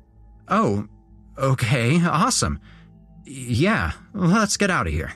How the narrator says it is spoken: I managed, in a lame stutter, to say

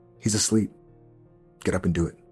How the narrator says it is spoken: Lucretia whisper to Martin

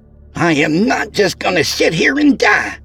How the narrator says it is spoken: she blurted out

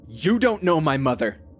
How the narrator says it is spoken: raised my voice

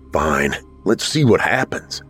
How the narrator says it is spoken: Jack muttered to himself

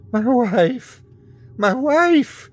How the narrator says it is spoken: cried

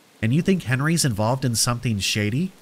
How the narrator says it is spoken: she asks

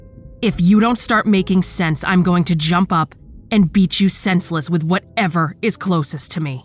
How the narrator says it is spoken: I growl

